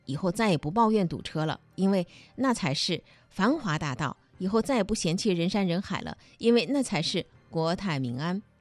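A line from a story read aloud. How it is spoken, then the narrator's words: Sighing with feeling. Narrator (Chinese): 网友还在感叹说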